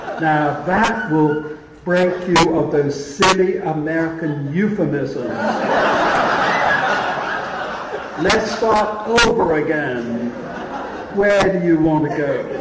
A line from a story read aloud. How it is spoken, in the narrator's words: Lewis was roaring with laughter, and he said